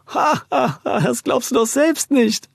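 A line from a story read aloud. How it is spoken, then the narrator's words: Man laughing loudly. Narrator (German): lachte der Mann laut auf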